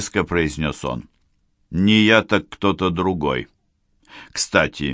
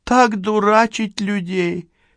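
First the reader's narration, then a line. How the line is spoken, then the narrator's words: Exclaimed. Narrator (Russian): воскликнула она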